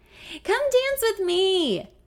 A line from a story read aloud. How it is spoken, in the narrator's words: I yell